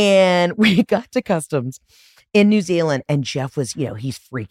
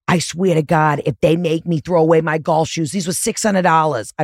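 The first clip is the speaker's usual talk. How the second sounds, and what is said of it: Thick put-on accent. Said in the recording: “I don't know why I'm giving him such a thick accent right now”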